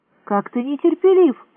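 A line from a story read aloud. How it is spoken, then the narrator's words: Reproachful exclamation. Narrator (Russian): с упреком воскликнула Мерин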